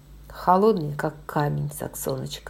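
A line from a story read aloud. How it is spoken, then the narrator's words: Plain. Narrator (Russian): ответил он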